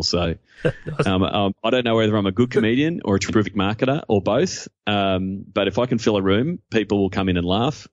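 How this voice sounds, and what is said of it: Australian accent. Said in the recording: “Where's the guy with the accent? ... They just want to hear an Australian accent.”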